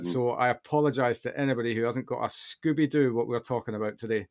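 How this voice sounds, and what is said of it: Broad Scottish accent. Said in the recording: “as soon as I speak to somebody from Scotland... I go all broad again”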